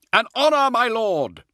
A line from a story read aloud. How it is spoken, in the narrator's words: shouted back